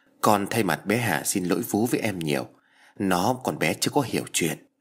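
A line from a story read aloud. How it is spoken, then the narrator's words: Soft, sad. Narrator (Vietnamese): Vi khẽ buồn rầu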